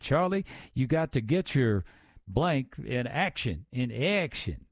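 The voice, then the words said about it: Drawn-out Georgia accent imitation. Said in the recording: “She had that Georgia accent, too... She'd say action. Three or four syllables to action.”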